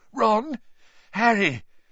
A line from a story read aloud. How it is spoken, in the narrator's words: His voice sounded shaky